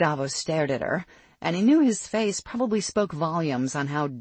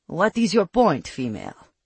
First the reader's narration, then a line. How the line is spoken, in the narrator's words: he asked, unable to hold back the snarl